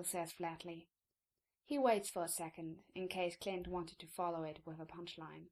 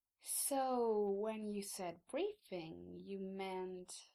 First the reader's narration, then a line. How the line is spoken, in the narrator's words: he drawls